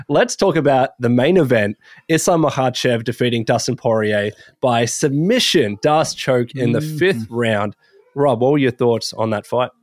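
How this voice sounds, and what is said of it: Sick, strained voice. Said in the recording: “I apologize for my voice. I'm pretty sick at the moment.”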